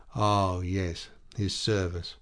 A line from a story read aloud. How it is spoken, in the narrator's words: Her voice sank